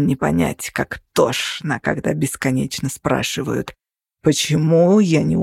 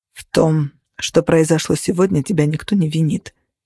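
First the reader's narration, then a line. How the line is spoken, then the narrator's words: Calm. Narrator (Russian): спокойно сказал Кости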